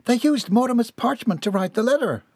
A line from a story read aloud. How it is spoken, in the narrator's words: Millie exclaimed in sudden realization